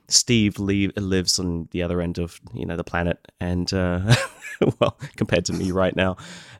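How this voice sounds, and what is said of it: Sick, flu-affected voice. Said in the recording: “I've come down with the flu, as you can probably tell by my voice.”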